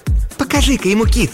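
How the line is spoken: Woman exclaiming. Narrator (Russian): воскликнула блондинка

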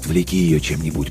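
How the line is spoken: Whispered into microphone. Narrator (Russian): прошептал он в микрофон

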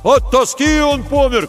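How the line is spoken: Shout from a crowd. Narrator (Russian): крикнули из толпы

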